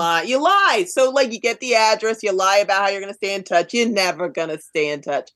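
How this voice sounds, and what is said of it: Exaggerated New York accent. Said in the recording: “Your New York accent just came through. ... So much. ... I did it deliberately. ... I did it very deliberately. It was a little Betty Davis, a little.”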